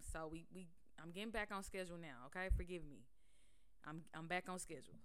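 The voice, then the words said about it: Sick-sounding voice. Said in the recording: “I'm still sick right now. If you can hear it in my voice, I'm still sick.”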